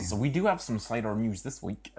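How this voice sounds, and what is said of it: Put-on Somerset accent. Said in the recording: “You put on a Somerset accent there. ... Put on nonsense Somerset accent? ... I'm not normally good at accents, but I thought that was all right.”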